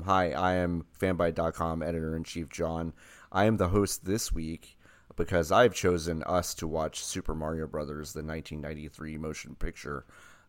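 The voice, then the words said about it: Deep raspy radio voice. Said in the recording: “Your radio voice today is like. ... I think I have like the lightest bronchitis ... You're a rotten Mr. Grinch kind of thing going”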